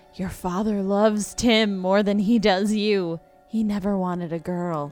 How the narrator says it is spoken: at night it whispered

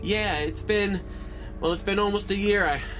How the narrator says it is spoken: I sighed

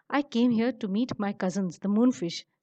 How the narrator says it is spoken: says the moon

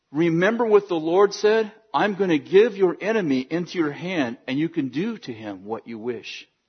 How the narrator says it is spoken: Abner whispers to David

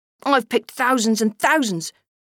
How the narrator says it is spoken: he grunted, for the picking position led to grunts

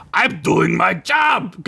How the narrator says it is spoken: Gunk yelled back

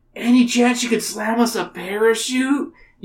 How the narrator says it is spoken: You plead

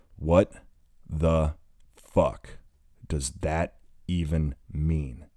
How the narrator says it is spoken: He asks slowly, between breaths

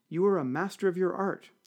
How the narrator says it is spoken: said the driver, wiping his brow nervously

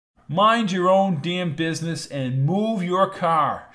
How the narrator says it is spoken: shouted Jones

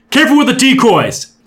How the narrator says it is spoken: Del shouted into his mic

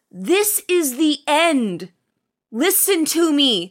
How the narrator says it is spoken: He shouts

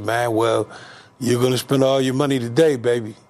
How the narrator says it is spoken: laughing said

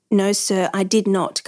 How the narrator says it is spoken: Carter replied evenly

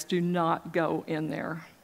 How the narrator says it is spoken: God was saying, almost in an audible voice

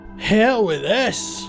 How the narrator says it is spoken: shouted, making a desperate rush for the door

